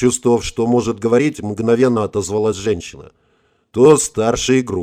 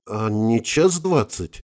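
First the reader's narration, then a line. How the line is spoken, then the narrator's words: Confused woman asking. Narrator (Russian): растерянно спросила женщина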